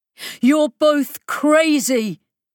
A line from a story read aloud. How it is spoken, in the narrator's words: he shouted, his voice battering about the room from the speakers